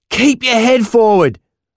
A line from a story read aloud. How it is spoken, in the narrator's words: I shouted, coughing as the river dipped and filled my lungs with water